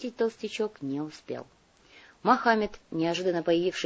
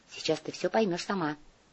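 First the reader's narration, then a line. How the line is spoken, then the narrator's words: Quick whisper. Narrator (Russian): быстро шепнул Глеб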